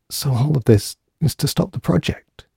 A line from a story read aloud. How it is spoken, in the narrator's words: She whispered sadly